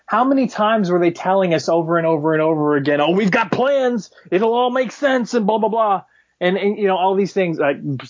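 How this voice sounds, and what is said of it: Bad Bernie Sanders impression. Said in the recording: “bad Bernie Sanders impression”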